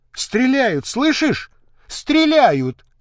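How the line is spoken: Shouted. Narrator (Russian): закричала Миловида

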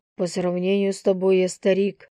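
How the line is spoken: Amused snort. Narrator (Russian): хмыкнул он

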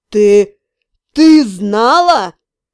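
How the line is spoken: Furious hiss. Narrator (Russian): Разъяренно прошипел он

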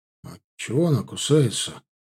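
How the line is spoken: Muttered helplessly. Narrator (Russian): только и смог пробурчать Богдан

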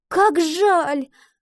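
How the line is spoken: Girl's exclamation. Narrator (Russian): воскликнула девочка

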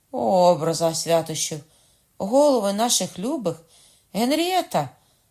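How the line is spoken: Cried out. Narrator (Ukrainian): скрикнула Маргарита

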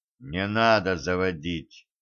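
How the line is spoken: Quiet speech. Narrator (Russian): тихо сказал Федя

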